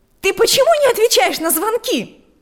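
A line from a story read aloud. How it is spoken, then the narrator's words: Shouting from the doorway. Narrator (Russian): закричала она прямо с порога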